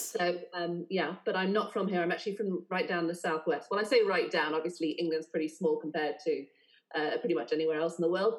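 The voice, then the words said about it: Polished southern English accent. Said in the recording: “my Mary Poppins accent, I am from England ... this kind of Emma Thompson-esque Mary Poppins situation”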